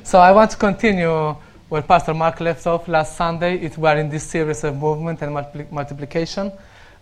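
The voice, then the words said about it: Romanian accent. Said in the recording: “If you hear me speaking a bit weirdly, I'm Romanian and I still need to work on my accent.”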